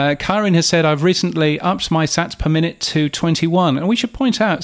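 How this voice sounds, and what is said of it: Usual voice. Nothing is said of it.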